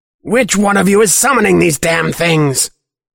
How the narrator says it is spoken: Clock screeches

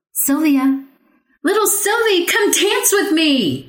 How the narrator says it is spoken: cried

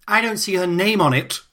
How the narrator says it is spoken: cried

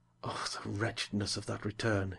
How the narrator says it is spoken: he murmured

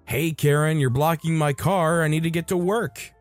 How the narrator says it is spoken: I even yell

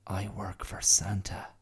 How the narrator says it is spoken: he whispered

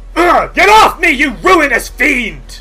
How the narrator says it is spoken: Isror snarls

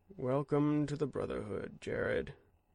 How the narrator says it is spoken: Kendall said sadly

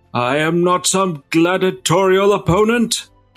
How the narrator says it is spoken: shout

